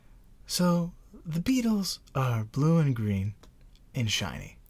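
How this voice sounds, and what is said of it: Calm, soothing imitated voice. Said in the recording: “That was your Bob Ross impression? ... I know he's calm. ... He is calm. You got that part right.”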